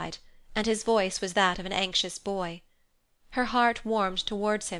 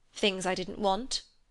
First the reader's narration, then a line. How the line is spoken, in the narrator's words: he said crossly